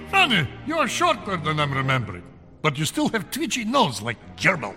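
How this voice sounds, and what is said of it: Speaks with an inexplicable foreign accent. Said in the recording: “inexplicable accent”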